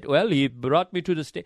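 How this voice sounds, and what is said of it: Poor imitation Haitian accent. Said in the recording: “That was a terrible Haitian accent.”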